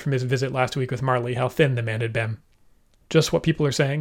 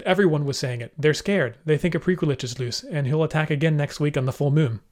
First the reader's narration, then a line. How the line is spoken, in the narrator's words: quickly said